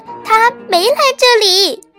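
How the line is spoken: Loud shout. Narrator (Chinese): 大公大声喊道

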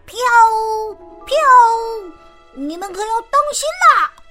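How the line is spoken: Calling out. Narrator (Chinese): 她嘴里还叫着

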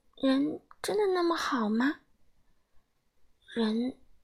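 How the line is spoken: Incredulous muttering. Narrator (Chinese): 狐狸妈妈不敢相信的嘟囔着

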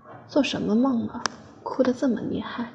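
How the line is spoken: Sighing. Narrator (Chinese): 他叹息

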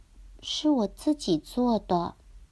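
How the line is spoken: Boy speaking softly. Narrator (Chinese): 小男孩轻声的说

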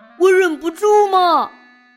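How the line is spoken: Loud barking. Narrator (Chinese): 小狗汪汪大叫，好像在说

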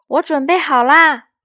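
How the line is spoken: Calling out. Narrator (Chinese): 艾玛叫道

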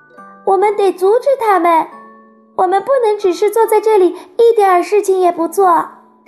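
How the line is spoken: Urgent cry. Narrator (Chinese): 瑟菲叫起来

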